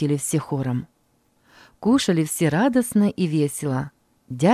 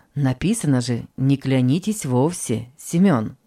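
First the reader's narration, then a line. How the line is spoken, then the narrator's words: Plain. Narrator (Russian): ответил отец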